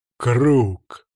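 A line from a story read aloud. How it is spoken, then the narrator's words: Growled. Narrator (Russian): прорычал Оги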